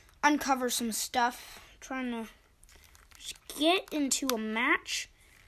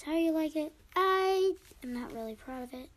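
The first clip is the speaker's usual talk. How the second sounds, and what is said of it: Put-on girl voice, not convincing. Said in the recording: “do my girl voice ... I don't think it's really good girl voice.”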